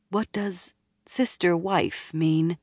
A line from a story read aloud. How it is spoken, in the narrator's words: asked hesitantly